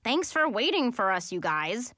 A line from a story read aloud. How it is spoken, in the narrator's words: Sophie said sarcastically